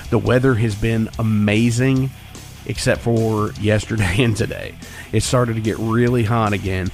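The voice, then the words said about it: Slightly hoarse voice. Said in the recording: “as you can hear, I'm a little hoarse. I've been fighting a cold all week long ... I sound a little bit better today”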